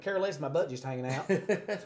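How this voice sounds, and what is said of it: Texas accent slipping out. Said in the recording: “my Texas just came out... My accent's going to come back”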